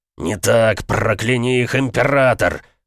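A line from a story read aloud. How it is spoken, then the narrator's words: Growling. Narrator (Russian): зарычал Инвиктус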